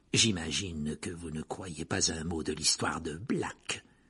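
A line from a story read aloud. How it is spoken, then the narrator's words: Murmured. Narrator (French): murmura Rogue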